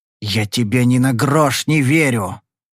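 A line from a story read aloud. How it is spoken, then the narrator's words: Growl from above. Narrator (Russian): прорычал мне сверху Пири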